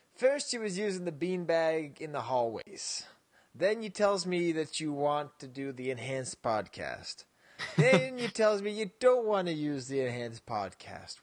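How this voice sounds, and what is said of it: Imitated voice of a vice principal. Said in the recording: “I'm doing the voice of my vice principal”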